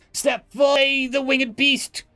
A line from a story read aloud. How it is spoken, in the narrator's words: someone in the crowd yelled